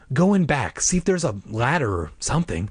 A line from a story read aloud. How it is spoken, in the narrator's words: I whispered